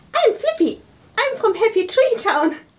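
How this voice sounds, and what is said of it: Cute character voice. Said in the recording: “in a cute voice”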